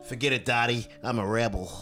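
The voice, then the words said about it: Good impression of a character's voice. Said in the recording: “that's a really good impression... That was very good.”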